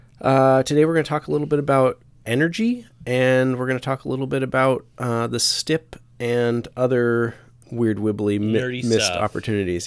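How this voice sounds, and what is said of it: Slightly congested voice with a cold. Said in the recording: “I've got a little bit of a cold.”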